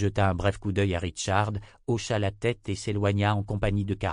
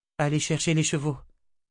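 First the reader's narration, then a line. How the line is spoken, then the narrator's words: Sighed. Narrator (French): soupira Nietzsche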